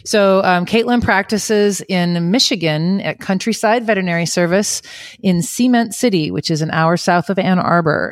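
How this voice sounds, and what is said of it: Michigan accent. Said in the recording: “You can hear my Michigan accent climbing right back in my mouth... you're going to hear me sound a little different.”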